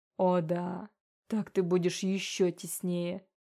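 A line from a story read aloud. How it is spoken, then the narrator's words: Muttered. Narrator (Russian): пробормотал демон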